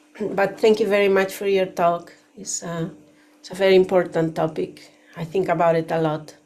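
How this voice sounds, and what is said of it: Voice affected by a cold. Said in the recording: “I have a little bit of a cold. ... So excuse my voice,”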